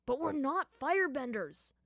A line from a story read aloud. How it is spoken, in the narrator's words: Zuko yelled again